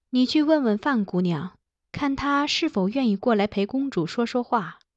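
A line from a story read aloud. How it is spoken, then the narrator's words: Giving instructions. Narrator (Chinese): 吩咐道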